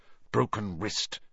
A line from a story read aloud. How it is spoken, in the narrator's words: Harry heard her mutter